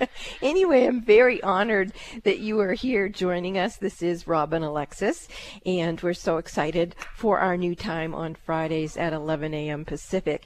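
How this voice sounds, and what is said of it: Hoarse, weakened voice. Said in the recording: “I didn't even know I had lost my voice.”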